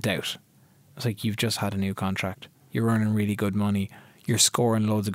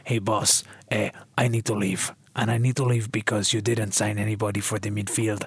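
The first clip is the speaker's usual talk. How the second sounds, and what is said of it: Put-on foreign accent, poor impression. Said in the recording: “that's the worst impression. ... It's not like a Tony Montoya impression, but that's how I imagine he's playing ... these types of accents”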